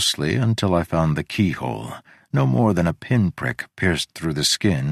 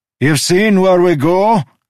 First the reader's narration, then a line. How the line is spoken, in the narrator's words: He shouted